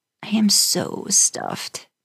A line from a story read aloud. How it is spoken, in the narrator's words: groaned